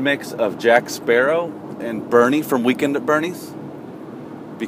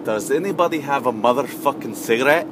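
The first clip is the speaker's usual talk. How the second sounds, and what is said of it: Put-on accent, admittedly rough imitation. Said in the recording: “it was such a beautiful accent ... I'm really gonna butcher the accent”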